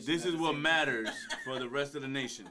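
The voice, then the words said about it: Imitates another person's voice. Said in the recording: “With the Obama impersonation.”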